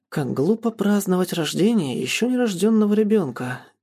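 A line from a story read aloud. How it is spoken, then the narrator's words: Quiet remark. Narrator (Russian): тихо прокомментировал Мариан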